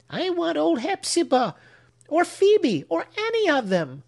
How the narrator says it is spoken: answered Ned, sobbing

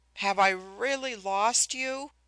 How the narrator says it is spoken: I moaned

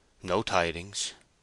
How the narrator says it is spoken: said Gabriel wearily

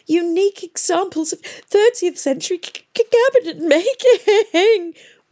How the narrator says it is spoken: wailed Miss Plym, and collapsed in tears

